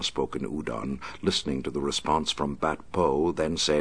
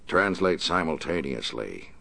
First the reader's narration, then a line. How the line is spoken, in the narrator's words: the Batman said in a harsh voice